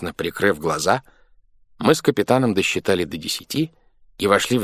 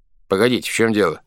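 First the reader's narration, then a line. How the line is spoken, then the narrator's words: Plain. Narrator (Russian): сказал я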